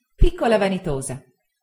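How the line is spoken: Exclamation. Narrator (Italian): esclamai

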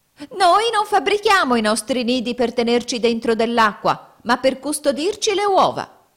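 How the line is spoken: Female finch's shrill shriek. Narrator (Italian): una signora Fringuello strillò

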